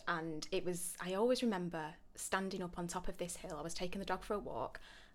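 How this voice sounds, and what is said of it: Northern English accent. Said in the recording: “I'm northern, if you can't tell by the accent”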